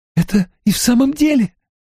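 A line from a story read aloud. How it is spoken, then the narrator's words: Stifled cry. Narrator (Russian): сдавленно вскрикнула Эгвин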